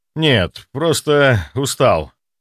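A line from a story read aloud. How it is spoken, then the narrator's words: Sigh. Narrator (Russian): вздохнул я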